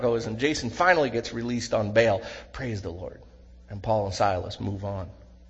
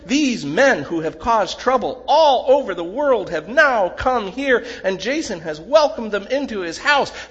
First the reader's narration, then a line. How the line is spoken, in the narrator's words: shouting